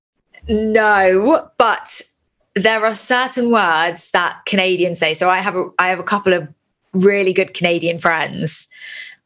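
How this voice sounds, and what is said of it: Queen's English British accent. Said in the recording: “I am very Queen's English, let's just say.”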